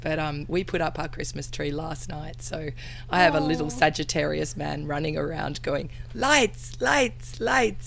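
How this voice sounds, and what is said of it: Voice affected by throat infection. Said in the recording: “your throat infection ... excuse my voice”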